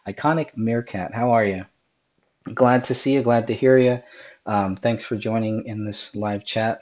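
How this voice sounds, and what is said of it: Raspy voice. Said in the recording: “my voice is a little raspy, ... I am still getting over this cold”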